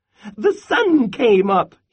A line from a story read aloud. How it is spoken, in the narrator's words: he chirped